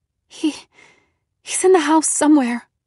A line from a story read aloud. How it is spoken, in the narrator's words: I stammered